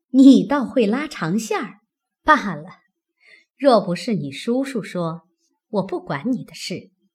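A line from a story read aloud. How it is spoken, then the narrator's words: Laughing. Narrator (Chinese): 凤姐笑道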